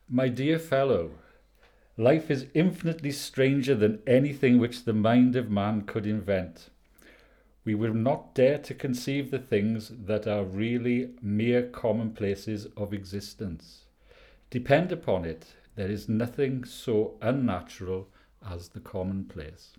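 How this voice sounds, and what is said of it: Welsh accent. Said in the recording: “I didn't know Sherlock Holmes had a Welsh accent”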